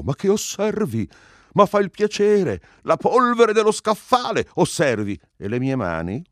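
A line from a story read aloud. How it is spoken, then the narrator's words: Protesting exclamation. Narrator (Italian): Quantorzo tentò di reagire ed esclamò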